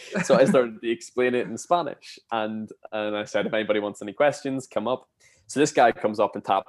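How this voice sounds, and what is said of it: Usual voice. Nothing is said of it.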